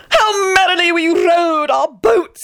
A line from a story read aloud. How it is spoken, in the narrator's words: he howled